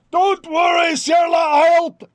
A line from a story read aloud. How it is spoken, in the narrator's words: thunders up 10, 15, 30, says